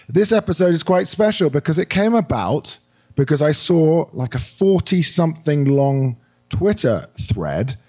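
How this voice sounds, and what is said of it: Hoarse, croaky voice. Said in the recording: “My very able apologies to all of you for my voice. I've got a little bit of a frog in my throat”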